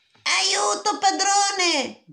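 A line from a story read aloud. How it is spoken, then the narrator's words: Instrument shouting. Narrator (Italian): gridò lo strumento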